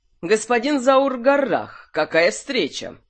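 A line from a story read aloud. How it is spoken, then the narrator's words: Loud. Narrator (Russian): громко сказал он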